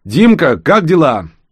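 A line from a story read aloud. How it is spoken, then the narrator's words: Shouting. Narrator (Russian): Рос прокричал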